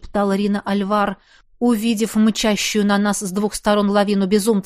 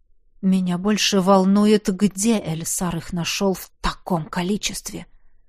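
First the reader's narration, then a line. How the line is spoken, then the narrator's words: Muttered. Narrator (Russian): Пробормотал я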